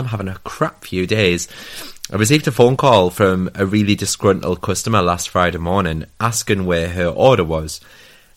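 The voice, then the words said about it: Sick-sounding, unwell voice. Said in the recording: “my voice is different ... I'm currently suffering from a bout of man flu.”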